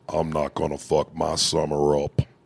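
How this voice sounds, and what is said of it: Imitates another person's voice. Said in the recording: “I'm trying to get my Scottie Pippen impression.”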